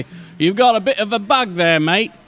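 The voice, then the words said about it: Put-on British accent, sounds Australian. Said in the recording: “He's British... here I thought from your accent he was Australian”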